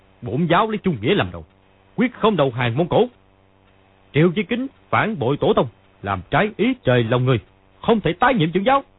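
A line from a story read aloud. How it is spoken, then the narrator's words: Stern shout. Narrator (Vietnamese): Lý Chí Thường quát lên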